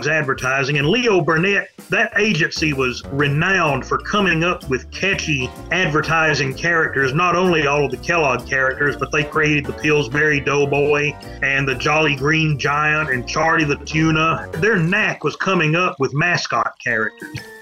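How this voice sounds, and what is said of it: Southern US accent. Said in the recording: “I'm trying to figure it out by your accent. Somewhere in the South.”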